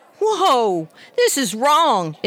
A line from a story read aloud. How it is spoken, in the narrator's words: exclaimed Harry